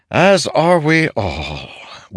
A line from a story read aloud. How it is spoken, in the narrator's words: Wit said with a sigh